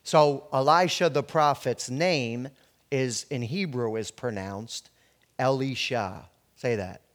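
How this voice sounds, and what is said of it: New Jersey accent. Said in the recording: “my New Jersey accent”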